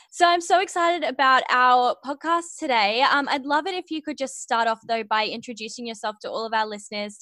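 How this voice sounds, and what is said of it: Australian accent. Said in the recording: “someone from Australia, I just love it because I love listening to your beautiful way of speaking. It's just so gorgeous”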